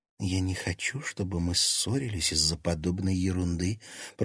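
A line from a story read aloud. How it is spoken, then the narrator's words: Whisper in ear. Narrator (Russian): прошептала Лиза на ухо Тимофею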